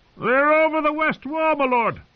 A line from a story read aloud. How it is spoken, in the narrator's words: Thorin Smallwood screamed at the old bear